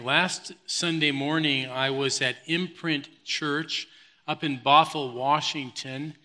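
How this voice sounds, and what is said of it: Hoarse, fading voice. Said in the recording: “losing my voice. This is a really bad time to lose my voice,”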